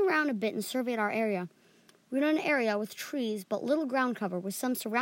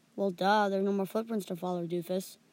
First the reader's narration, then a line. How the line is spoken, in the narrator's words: Jahiri said flatly